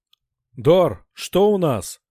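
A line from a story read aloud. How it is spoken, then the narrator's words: Shouted. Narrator (Russian): крикнул Грик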